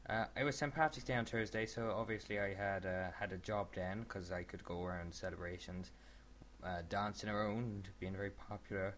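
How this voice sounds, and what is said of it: Bad put-on Irish accent. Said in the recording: “a terrible Irish accent”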